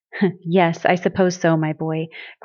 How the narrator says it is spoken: Grandfather said with a brief chuckle

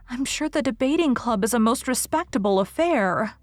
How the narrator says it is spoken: pleaded Anne

